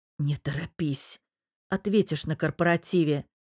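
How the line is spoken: Whispered. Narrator (Russian): прошептал Павел

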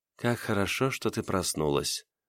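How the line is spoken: Mumbling. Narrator (Russian): пробормотала

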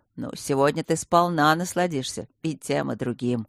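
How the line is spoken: Wry snort. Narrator (Russian): хмыкнул полковник

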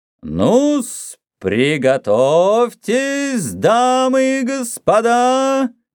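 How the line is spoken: Sing-song. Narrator (Russian): нараспев произнес Рокки

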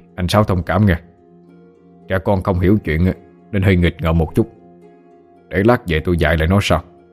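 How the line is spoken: Feigned sternness, suppressed smile. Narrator (Vietnamese): Ông Mười cố làm ra vẻ nghiêm nghị, giấu đi nụ cười nở trên môi rồi nói

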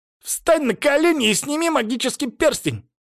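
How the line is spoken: Shrill commanding devil. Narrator (Russian): визгливо приказал мне черт

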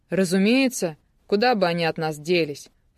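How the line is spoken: Snort. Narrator (Russian): фыркнул Карпухин

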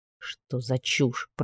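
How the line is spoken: Grumbled. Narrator (Russian): пробурчал

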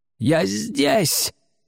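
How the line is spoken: Straining, desperate shout. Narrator (Russian): закричал, надрываясь, священнослужитель

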